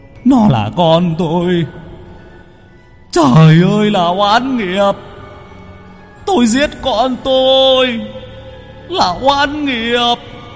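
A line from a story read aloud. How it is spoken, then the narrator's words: Man wailing and sobbing. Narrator (Vietnamese): Người đàn ông gào khóc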